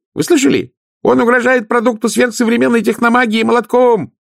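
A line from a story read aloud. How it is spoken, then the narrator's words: Yelling. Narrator (Russian): завопил он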